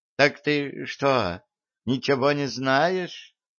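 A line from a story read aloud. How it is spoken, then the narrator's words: Exclaimed. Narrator (Russian): воскликнула тетя Маша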